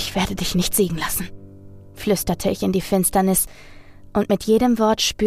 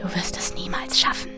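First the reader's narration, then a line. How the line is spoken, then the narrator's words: Whisper in the ear. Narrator (German): flüsterte eine Stimme in mein Ohr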